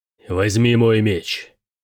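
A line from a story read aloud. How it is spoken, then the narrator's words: Growling general. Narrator (Russian): прорычал генерал Верит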